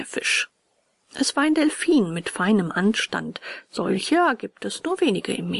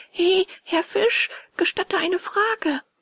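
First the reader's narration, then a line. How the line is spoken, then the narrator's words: Called out. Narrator (German): Bengele rief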